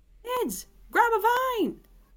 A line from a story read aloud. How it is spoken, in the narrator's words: cried Katrina